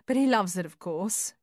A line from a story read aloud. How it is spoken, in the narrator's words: Judy laughed